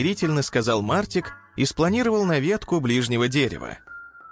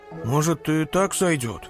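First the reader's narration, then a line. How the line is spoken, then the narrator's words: Tired grumble. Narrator (Russian): устало проворчал Тик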